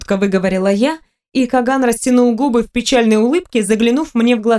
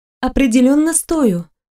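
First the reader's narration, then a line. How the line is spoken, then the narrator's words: Confused reply. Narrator (Russian): растерянно ответила я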